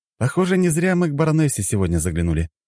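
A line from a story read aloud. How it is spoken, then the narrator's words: Cheerful reply. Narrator (Russian): бодро ответил я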